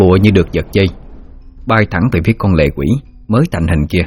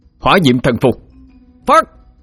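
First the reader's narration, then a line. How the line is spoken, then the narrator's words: Loud shouted incantation. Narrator (Vietnamese): Đại Hải miệng thét lớn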